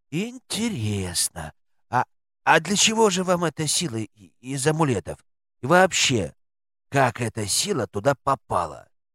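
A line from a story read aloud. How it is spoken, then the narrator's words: Sighing. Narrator (Russian): Штора вздохнула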